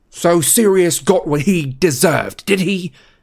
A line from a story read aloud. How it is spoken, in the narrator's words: yelled